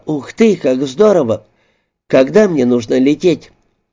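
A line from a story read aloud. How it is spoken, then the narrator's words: Exclaiming. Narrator (Russian): я воскликнула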